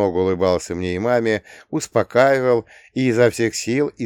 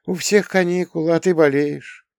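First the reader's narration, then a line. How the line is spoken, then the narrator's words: Sympathetic sigh. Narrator (Russian): сочувственно вздохнула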